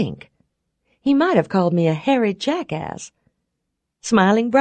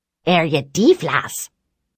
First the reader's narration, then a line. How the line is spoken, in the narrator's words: With a sharp clucking sound, he barked